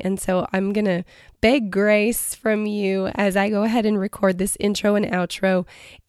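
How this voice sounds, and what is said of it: Raspy voice. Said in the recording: “my voice is a little more raspy today and I am fighting a cold”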